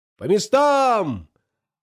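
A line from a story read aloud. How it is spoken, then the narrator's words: Many voices shouting, many languages. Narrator (Russian): На разных языках закричали капитаны из 80 разных стран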